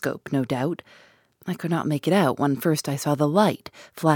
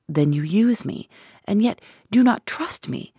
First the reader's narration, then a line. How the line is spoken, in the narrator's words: I cried with some bitterness